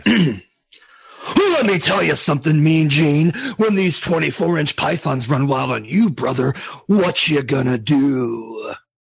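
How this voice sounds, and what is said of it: Hulk Hogan wrestling promo impression. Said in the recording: “do an impersonation of them ... Hulk Hogan ... Very good. Very good. ... I felt like I was talking to Hogan there for a second.”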